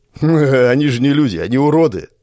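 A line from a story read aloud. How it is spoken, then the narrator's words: Chuckling. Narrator (Russian): хохотнул первый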